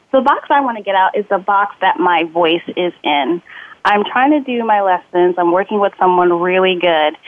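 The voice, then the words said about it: Nasal voice. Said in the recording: “I still tend to be nasally”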